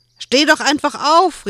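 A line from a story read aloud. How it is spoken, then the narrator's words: Calling out. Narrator (German): rief Joel ihm zu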